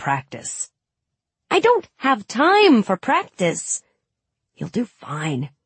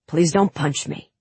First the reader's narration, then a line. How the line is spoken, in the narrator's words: whispered